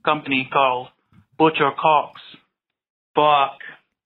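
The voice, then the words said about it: Attempted Australian accent. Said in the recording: “trying to get that Australian accent... he finally got it done... it's okay”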